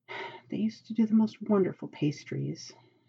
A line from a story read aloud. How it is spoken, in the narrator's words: Aziraphil murmurs